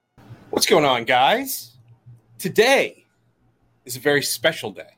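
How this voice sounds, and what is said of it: Lower radio announcer voice. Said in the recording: “He's got his voice on... I have my radio voice on... It's a little bit lower.”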